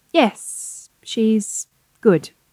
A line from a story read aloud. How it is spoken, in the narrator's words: Elizabeth said slowly